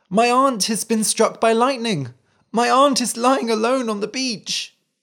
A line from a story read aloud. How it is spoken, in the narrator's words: he cried